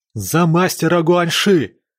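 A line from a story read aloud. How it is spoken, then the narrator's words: Shouted. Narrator (Russian): закричал Синьде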